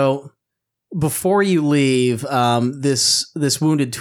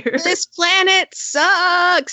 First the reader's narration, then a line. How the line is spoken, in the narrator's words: I yell as I continue to run